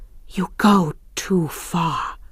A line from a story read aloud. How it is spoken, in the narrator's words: she breathed